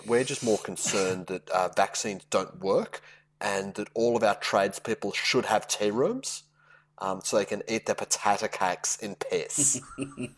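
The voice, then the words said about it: Melbourne Australian accent. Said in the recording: “Oh, the accent gets me every time... It's a Melbourne accent”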